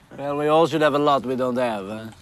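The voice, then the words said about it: Italian accent. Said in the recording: “I detect an accent. ... I'm Italian.”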